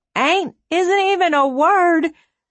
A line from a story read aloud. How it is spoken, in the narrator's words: shouted at the empty lagoon